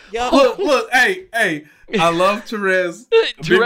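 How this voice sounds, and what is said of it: Usual voice. Nothing is said of it.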